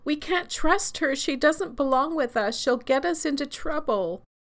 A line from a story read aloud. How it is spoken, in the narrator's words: shrieked